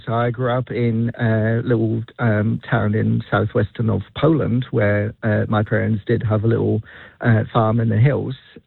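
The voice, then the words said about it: Polish accent. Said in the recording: “You can probably guess from my accent that I don't exactly come from New Zealand.”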